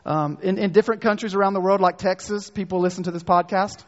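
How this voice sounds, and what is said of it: North Carolina accent. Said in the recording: “my North Carolina accent”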